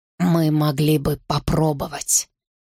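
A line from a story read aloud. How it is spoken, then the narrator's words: Hoarse. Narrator (Russian): сказал хрипло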